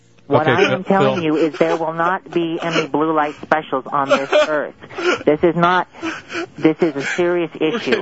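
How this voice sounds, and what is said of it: Silly put-on character voice. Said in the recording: “put on a silly voice”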